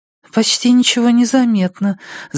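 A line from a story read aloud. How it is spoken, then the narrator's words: Reassuring. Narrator (Russian): заверила Джоди Эндерс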